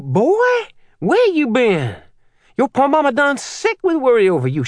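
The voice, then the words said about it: Thick Creole accent. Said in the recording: “Minnie's Creole accent was thicker than normal.”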